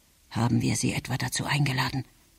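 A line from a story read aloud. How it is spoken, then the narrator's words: Murmured. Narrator (German): murmelte Emil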